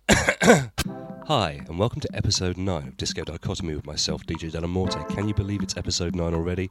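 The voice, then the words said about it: Hoarse, croaky voice from cold. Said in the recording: “I have a bit of a cold, so I'm a bit more hoarse and croaky than usual”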